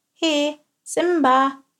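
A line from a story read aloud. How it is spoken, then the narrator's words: Called out. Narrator (German): rief Tilp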